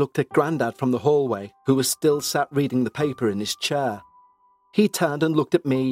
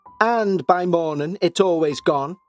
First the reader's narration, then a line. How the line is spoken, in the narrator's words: Nan leant over the banister and shouted